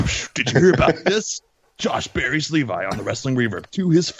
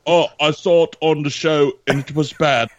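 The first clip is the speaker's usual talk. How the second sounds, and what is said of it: Poor put-on British accent. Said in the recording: “Sorry, my British accent is terrible.”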